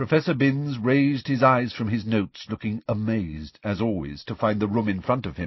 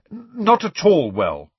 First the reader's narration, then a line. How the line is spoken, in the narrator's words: said Harry firmly